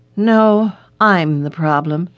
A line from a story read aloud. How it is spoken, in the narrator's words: said in a shaky voice